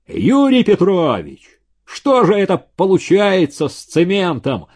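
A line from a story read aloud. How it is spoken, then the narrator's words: Yelling. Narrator (Russian): заорал он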